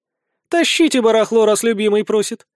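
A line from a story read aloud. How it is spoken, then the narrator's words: Cheerful announcement. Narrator (Russian): объявляет Сехмет весело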